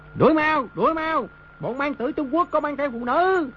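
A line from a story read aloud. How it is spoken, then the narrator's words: Excited group cheering. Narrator (Vietnamese): Đám quân tướng lửa dục bừng lên cùng reo hò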